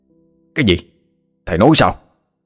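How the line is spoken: Question like a shout. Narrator (Vietnamese): A Khắc cho hỏi như quát lớn

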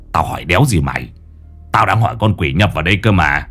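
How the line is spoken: Grumbling. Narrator (Vietnamese): Lão Năm cằn nhằn

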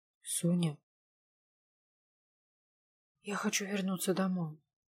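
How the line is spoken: Numb-lipped whisper. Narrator (Russian): прошептала я непослушными губами

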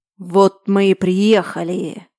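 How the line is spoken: Ominous voice. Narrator (Russian): зловещим голосом говорит Ренат

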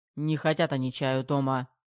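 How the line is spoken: Gruff growl. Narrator (Russian): рыкнул Терехов

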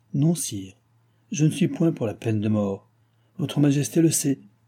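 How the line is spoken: Gentle. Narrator (French): ajouta doucement le dauphin

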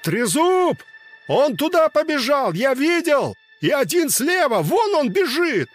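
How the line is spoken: Distant shouting from street. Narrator (Russian): С проспекта кричали

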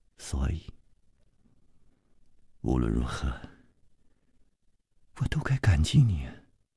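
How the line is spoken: Tender, soft. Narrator (Chinese): 他温柔地凝住着楚留香，柔声接着说

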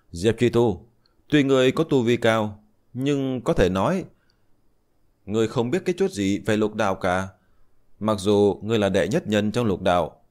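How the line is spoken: Loud laughing, old man. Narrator (Vietnamese): Minh Hà lão tổ cười lớn nói

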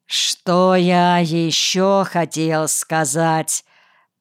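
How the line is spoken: Slow. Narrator (Russian): Медленно начинает комиссар

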